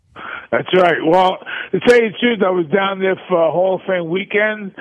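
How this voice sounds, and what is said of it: New York accent. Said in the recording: “you can tell the New York accent”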